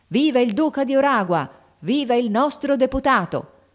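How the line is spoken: Crowd shouting. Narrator (Italian): La folla gridava

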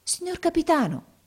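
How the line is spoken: Amazed boy exclaiming. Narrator (Italian): esclamò il ragazzo meravigliato

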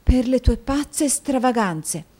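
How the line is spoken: Quiet statement. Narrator (Italian): affermò la moglie sottovoce

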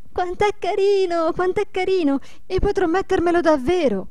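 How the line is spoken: Repeated excited shouting. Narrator (Italian): gridando ad ogni momento

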